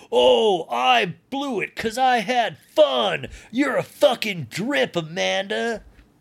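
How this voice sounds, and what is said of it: Imitates another person's voice. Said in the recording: “That's my Kyle imitation.”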